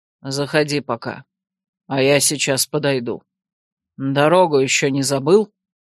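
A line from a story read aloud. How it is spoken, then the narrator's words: Grudging mutter. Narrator (Russian): Фаэс соизволил буркнуть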